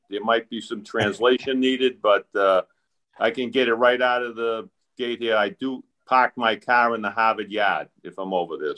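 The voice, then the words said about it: Boston accent. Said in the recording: “you're very close to where I am, so I apologize up front for the accent.”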